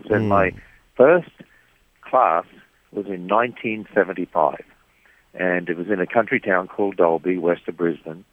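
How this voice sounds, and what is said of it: Australian accent. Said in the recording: “I originally come from Australia, and hope you can tell that from the accent.”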